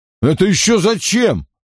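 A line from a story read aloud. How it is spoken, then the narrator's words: Irritated question. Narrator (Russian): худой раздраженно спросил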